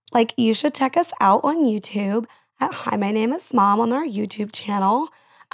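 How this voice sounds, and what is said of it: Put-on valley girl voice. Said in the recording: “you turned into a valley girl ... in your valley voice”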